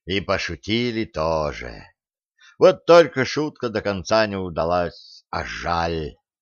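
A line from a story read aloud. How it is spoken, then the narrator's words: Sighing. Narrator (Russian): вздохнул Бывалини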